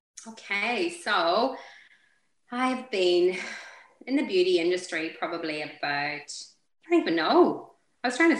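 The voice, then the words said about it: Irish accent. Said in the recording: “You've got an Irish accent, so it's definitely not an Aussie.”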